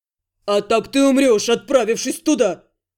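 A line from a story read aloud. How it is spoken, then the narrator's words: Barking man. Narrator (Russian): рявкнул мужчина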